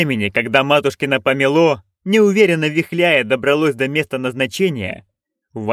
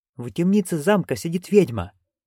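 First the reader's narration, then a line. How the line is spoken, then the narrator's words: Whispered. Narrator (Russian): шепнул кто-то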